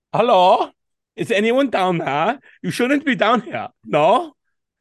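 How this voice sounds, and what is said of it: Put-on German accent. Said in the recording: “give me a German accent ... That's the Germans, well, the Prussians”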